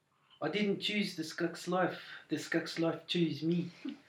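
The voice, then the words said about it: Put-on New Zealand accent. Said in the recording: “Is that really actually a New Zealand accent? ... Mine, when I do it, is South African, so you're already doing All a better right, job.”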